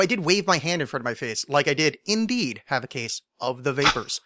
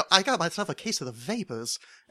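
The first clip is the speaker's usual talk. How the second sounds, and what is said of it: Put-on Southern belle accent. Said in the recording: “I sometimes like pretend to be a southern belle and go ... that's the end of that accent ... Pretty good.”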